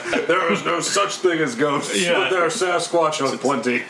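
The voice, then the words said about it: Imitates another person's voice. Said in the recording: “That was my Dan impersonation. ... That's a good one. ... spot on. ... I think I sound just like him.”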